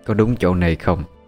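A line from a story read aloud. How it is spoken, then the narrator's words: Woman's soft reply. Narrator (Vietnamese): Người đàn bà khẽ ừ một tiếng rồi đáp lại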